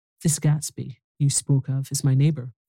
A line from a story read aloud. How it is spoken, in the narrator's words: I said